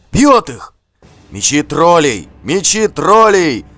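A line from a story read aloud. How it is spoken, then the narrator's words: Crowd shouting. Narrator (Russian): закричали вокруг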